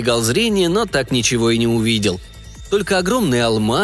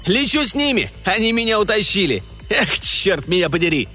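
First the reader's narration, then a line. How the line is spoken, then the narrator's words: Laughing. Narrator (Russian): Он засмеялся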